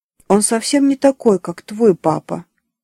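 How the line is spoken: Plain. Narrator (Russian): сказала Диана

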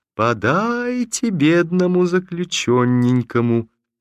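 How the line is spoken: Laughing singsong against glass. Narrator (Russian): Она ... прильнула смеющимся свежим лицом к стеклу и говорила нараспев

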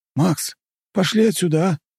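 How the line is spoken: Pleading. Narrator (Russian): взмолился Нарышкин

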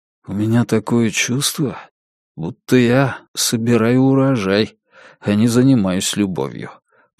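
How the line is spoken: Whisper in ear. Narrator (Russian): прошептал он ей в ухо

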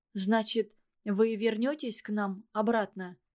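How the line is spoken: Timid question. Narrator (Russian): робко спросила

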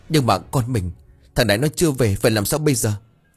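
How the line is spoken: Tearful whimpering. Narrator (Vietnamese): Bà Ngân mếu máo

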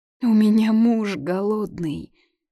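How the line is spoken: Childlike whimper. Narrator (Russian): Вдруг захныкала, как 5-летний ребенок, пациентка

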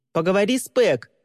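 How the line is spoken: Shout after someone. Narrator (Russian): крикнул Тристин ей вслед

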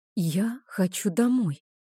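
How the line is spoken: Whispered confession. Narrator (Russian): шепотом призналась я

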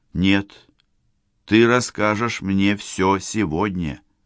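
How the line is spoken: Clear, even voice. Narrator (Russian): Девушка произнесла четким, ровным голосом

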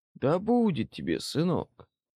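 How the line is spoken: Soothing voice of a commander. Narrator (Russian): Успокаивающим голосом обратился к Дессу командир

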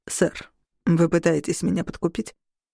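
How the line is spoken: Perfectly calm question. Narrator (Russian): Совершенно спокойно спросил Мораес

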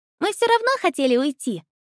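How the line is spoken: Joyful report. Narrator (Russian): радостно доложила Хэри

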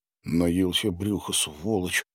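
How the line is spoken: Muttered. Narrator (Russian): пробормотал Витька

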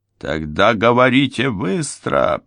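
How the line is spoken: Hot-tempered growl. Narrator (Russian): прорычал вспыльчивый Ральф

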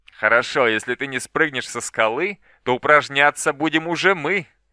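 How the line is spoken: Ominous laugh, bald man. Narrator (Russian): Лысый мужчина зловеще рассмеялся

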